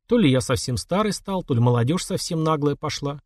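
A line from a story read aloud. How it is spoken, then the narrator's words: Sad. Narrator (Russian): грустно сказал Путята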